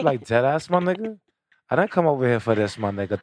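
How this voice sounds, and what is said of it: Imitates a New York woman's voice. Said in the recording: “New York bitches talk like they want to fight. ... I can't do the New York girl.”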